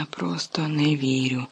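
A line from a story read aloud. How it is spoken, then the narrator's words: Whisper. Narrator (Ukrainian): шепотів Гаррі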